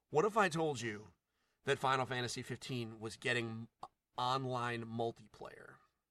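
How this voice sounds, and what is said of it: Morpheus impression, fictional character voice. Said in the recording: “my Morpheus impression.”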